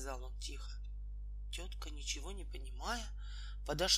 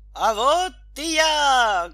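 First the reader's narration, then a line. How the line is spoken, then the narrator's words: Loud shout. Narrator (Russian): громко крикнул хозяин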